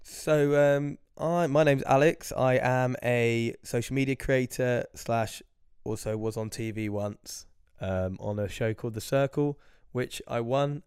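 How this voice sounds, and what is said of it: Ill, strained failing voice. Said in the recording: “I am a bit ill, guys. I warn you, my voice is going”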